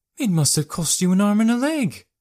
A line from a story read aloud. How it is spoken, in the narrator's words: Jannari said in her normal, concerned tone